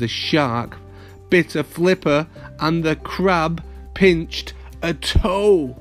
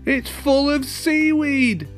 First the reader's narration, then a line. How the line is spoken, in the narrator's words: shouted Len